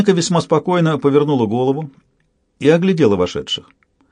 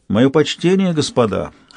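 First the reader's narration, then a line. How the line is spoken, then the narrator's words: Cold, polite female voice. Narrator (Russian): Холодно, учтиво прозвучал ее голос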